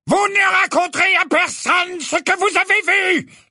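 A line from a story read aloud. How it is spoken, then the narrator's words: Yelled. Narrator (French): vociféra-t-il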